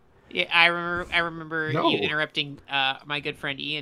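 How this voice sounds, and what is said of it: Usual voice. Nothing is said of it.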